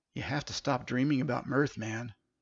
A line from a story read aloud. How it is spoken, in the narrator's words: Tyler whispered